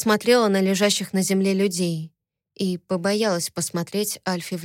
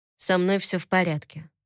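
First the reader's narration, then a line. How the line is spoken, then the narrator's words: Calm. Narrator (Russian): спокойно сказал Тогра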